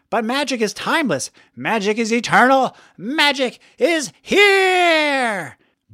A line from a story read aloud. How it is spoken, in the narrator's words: shouted